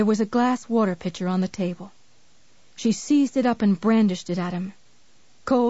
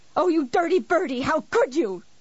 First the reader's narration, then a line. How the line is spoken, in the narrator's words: He spoke rapidly, urgently, eyes flashing